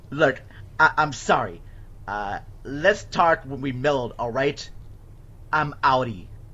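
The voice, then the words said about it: Put-on American accent, poorly done. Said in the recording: “my terrible American accent”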